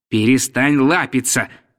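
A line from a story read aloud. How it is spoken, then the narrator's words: Stern. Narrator (Russian): сказал я строго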